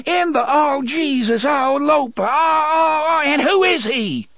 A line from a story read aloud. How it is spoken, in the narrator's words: She screamed